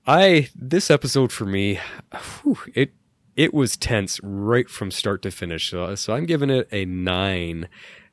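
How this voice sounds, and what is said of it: Voice sounds a little off. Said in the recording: “I'm fighting a really horrible cough this week ... my voice is a little bit off”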